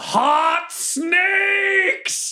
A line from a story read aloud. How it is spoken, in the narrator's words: I just yell